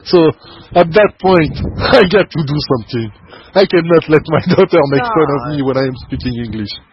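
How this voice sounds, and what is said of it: French accent in English. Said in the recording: “my French accent”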